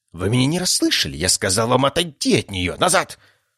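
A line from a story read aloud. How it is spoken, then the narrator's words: Shrieking physician. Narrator (Russian): Продолжал визжать лекарь императора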